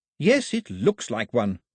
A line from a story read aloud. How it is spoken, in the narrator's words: snapped Daphne